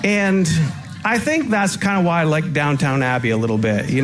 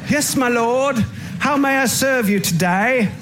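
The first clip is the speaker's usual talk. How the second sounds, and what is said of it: Put-on English accent. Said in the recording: “maybe that's where the English accent comes”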